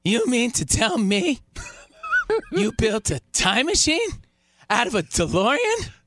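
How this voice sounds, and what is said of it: Imitates another person's voice. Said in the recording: “You want my Michael J. Fox impression ... Not bad. Hey, not bad. ... Very good, very good. ... Not great.”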